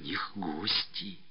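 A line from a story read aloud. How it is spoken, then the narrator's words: Whispered. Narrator (Russian): шепотом заявила она, как и Ганька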